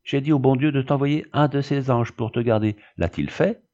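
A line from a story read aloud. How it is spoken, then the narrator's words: Exclaiming. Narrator (French): s'écria Odette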